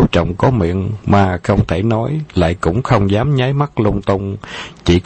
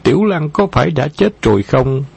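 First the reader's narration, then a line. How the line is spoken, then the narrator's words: Tearful anguished cry. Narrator (Vietnamese): Tố Tố sớm đã nước mắt đầm đìa, kêu lên thảm thiết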